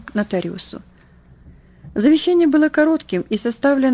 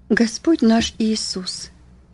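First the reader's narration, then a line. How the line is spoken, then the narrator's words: Solemn. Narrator (Russian): произнес торжественно Вильям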